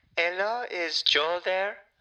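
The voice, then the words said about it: Speaks with an unexpected accent. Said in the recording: “Where's the accent coming from? ... I'd never heard you speak with this accent.”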